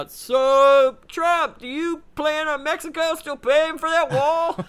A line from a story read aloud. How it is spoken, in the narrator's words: some reporter yells out